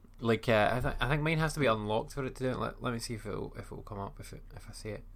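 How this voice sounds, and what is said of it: Scottish accent. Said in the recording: “Bixby doesn't work very well, especially with Scottish accent”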